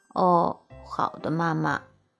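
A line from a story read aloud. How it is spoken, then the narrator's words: Mumbling. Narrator (Chinese): 我嘟囔着说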